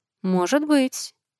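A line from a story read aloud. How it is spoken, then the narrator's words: Quiet speech. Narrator (Russian): тихо сказал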